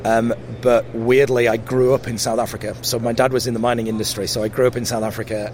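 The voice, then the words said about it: Mixed English regional accent. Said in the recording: “you have a really interesting accent ... my accent is really, really weird ... I'm from Yorkshire ... Yorkshire is a very, very kind of broad accent”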